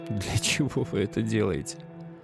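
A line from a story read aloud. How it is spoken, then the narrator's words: Laughing. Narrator (Russian): он засмеялся и сказал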